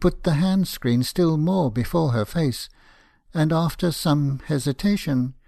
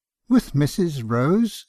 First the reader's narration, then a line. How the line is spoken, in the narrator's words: said I, almost laughing, although my heart was heavy enough